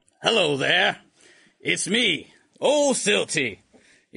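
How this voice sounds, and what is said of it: Put-on character voice. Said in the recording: “my voice is exactly the same as it always is. In no way different.”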